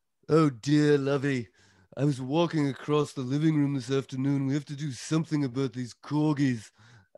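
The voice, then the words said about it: Impression of Thurston Howell III. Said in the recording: “Jim Backus playing Thurston Howell III on Gilligan's Island.”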